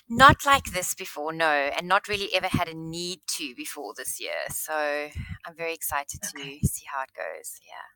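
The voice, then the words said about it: South African accent. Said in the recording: “you sound like you have a South African accent ... I do. I do. Cape Town, South Africa.”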